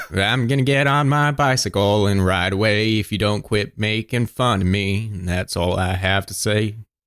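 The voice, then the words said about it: Redneck Forrest Gump-style voice. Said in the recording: “you're talking like a redneck bad boy ... Sounds like you're just doing Forrest Gump kind of there.”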